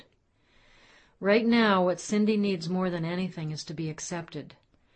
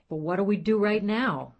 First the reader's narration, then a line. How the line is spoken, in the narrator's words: Matthew said in a more neutral tone than I had heard before